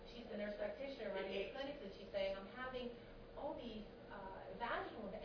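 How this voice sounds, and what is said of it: Eastern US accent, Philadelphia. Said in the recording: “it was an Eastern accent,”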